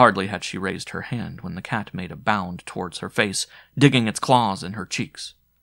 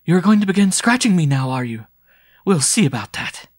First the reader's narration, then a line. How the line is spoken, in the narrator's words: cried the old maid